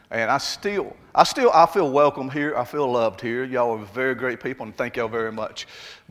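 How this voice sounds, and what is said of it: Southern Alabama accent. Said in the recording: “I still feel like I'm from Alabama... it has that whole accent thing”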